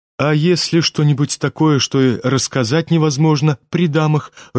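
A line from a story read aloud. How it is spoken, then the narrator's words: Timid young man. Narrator (Russian): робко заметил молчавший юноша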